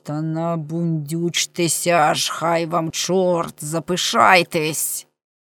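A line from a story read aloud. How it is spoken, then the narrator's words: Hissing through teeth. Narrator (Ukrainian): крізь зуби просичав йому англійською мовою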